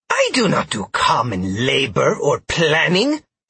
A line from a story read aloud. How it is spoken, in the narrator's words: Trell snapped